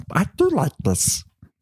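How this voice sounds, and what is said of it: Smeagol-like creature voice. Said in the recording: “You think you talk like Smeagol?”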